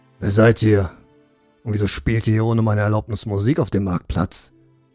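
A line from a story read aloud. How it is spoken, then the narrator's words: Gruff opening. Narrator (German): begann Wolte barsch das Gespräch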